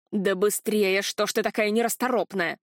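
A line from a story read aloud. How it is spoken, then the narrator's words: Grumbling woman. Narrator (Russian): пробурчала женщина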